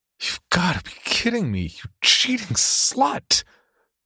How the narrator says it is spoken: Tom whimpered, completely devastated by the sight of his girlfriend in the photo with another man

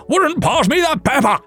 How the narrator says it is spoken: roared

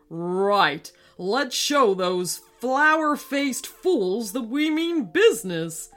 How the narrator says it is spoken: yelled King Mallard to his generals

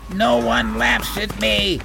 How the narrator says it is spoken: He roared

